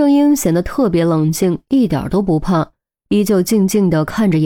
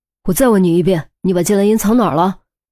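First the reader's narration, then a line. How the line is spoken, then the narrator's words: Stern, harsh demand. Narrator (Chinese): 严峰一巴掌拍在桌子上，厉声喝问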